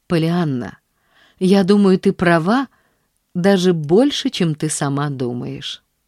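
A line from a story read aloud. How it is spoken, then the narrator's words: Gentle, affectionate. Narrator (Russian): сказал он ласково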